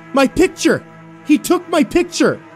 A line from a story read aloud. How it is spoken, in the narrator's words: Josh kept yelling